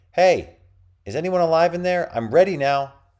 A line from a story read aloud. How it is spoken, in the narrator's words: Reza shouted